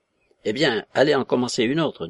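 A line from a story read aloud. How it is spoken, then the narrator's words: Curt. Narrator (French): dit sèchement Christophe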